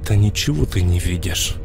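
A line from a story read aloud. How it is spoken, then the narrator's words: Silent inner plea. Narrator (Russian): Про себя взмолился я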